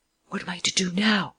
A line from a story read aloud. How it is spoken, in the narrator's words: The man whispered to Lupin